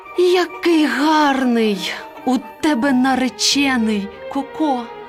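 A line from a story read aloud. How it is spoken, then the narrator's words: Admiring exclamation. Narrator (Ukrainian): курка Паула, побачивши такого красеня, вигукнула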